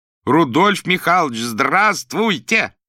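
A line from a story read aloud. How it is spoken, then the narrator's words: Loud shout. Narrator (Russian): громко крикнул Иван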